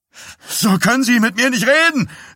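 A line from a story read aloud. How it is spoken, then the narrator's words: Shout. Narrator (German): schrie Dies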